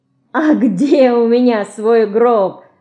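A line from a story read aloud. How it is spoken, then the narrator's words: Laughing. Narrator (Russian): засмеялся Ленька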